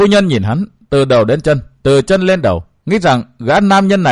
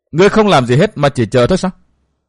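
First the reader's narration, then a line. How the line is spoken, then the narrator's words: Woman, laughing question. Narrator (Vietnamese): Bà bật cười hỏi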